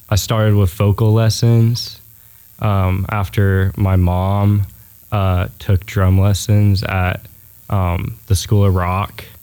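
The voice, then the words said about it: Smooth radio-style speaking voice. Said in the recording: “You got a great radio voice.”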